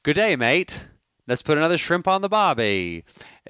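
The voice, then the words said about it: Put-on Australian accent. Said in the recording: “does the Australian accent”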